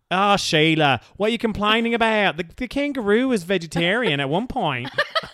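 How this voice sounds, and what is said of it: Put-on Australian / New Zealand accent. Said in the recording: “I love her Australian accent. That sounded very New Zealand.”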